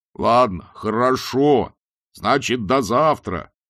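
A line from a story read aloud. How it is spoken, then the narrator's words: Shout after someone. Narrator (Russian): крикнул Мурков ей вслед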